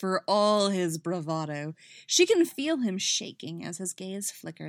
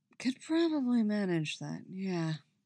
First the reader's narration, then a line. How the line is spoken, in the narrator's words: he murmurs